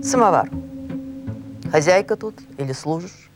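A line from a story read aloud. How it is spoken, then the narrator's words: Curt, absent-minded. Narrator (Russian): Приезжий отрывисто, невнимательно ответил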